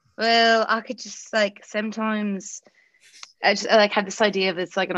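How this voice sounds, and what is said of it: Usual voice. Nothing is said of it.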